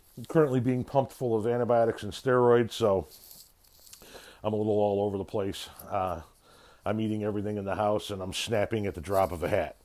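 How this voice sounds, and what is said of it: Raspy, slightly altered voice. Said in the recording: “my voice is going to sound a little different this week ... forgive the voice, forgive the raspiness”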